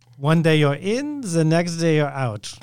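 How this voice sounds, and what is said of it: Heidi Klum impression. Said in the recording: “my Heidi Klum impersonation”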